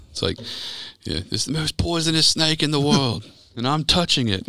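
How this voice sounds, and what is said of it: Put-on Australian accent. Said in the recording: “I was really proud of your Australian accent.”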